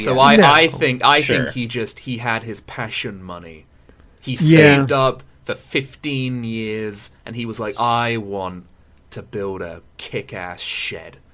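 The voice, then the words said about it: British accent. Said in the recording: “with the British accent ... the British accent”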